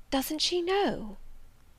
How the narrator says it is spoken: I heard the woman whisper

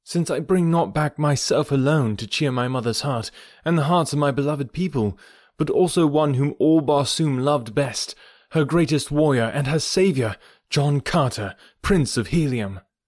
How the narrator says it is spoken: cried Carthoris

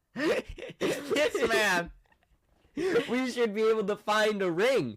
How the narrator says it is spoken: he yelled in the middle of the mall

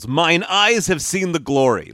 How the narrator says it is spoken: he yells

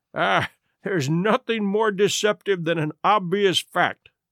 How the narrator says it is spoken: answered, laughing

